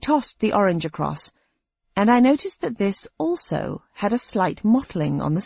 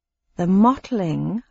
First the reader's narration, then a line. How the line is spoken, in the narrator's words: I said slowly